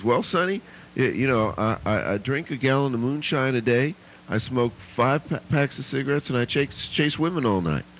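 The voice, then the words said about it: Put-on Georgia accent. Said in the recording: “Like that Georgia accent.”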